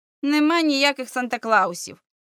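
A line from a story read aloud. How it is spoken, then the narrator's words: Sniffling grumble. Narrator (Ukrainian): шморгнув носом і буркнув Бобі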